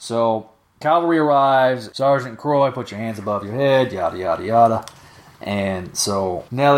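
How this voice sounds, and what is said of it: Usual voice. Nothing is said of it.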